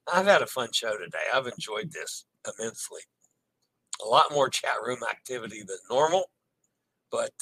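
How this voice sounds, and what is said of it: Strained, worn-out voice. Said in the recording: “my voice is about to give out”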